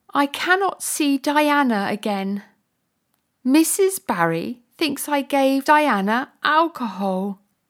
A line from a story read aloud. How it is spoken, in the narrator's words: Anne said and cried